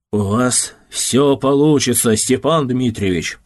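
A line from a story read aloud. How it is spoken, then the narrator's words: Deep bass voice. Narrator (Russian): пробасил Ярушев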